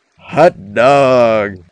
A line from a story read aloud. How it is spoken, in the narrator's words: Philip exclaimed with evident delight at his own witticism